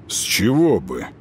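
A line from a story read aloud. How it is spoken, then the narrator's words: Muttered. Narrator (Russian): пробормотал Горин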